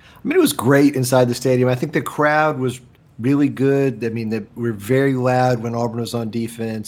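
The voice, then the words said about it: Rough, hoarse voice. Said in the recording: “my voice sounds a little rough, especially about the end of this podcast. That's because I left it all on the field yelling”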